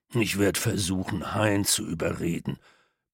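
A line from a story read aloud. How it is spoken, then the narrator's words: Grumble. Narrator (German): brummte Peter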